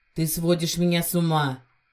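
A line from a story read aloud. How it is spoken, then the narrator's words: Growled. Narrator (Russian): рыкнул мужчина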